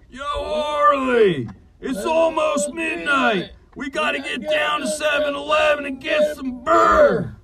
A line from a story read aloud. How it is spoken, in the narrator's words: Schwammy yelled out